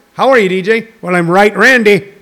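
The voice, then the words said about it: Bad put-on Irish accent. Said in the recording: “I just did that in a shitty Irish accent.”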